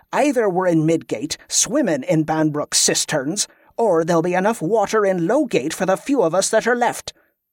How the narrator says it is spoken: she growled

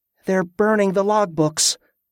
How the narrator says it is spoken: she added with a sigh

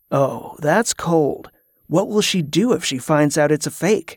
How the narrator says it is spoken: he whispered with a smile

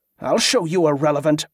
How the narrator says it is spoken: Wick snapped

